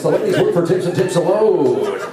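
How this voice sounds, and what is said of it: Strip club DJ announcer voice. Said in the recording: “This is my strip club DJ voice.”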